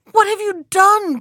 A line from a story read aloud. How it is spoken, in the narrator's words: cried the princess